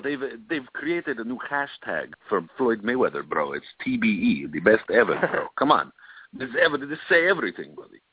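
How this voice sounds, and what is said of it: Odd put-on accent. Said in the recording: “I don't know where that accent came from. I don't even know anybody who speaks that way.”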